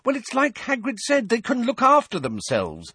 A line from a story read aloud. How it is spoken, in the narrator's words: said Hermione impatiently